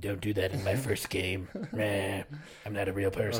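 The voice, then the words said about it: Imitates another person's voice. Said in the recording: “great Bezos impression”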